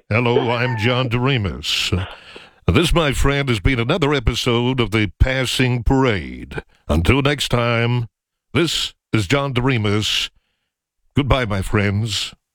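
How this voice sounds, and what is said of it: Imitates a radio host's voice. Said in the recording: “like John Doremus again. You really do. ... that was better than like your last impression.”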